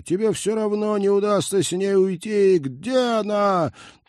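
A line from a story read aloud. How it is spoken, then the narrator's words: Triumphant yell. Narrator (Russian): триумфально заорал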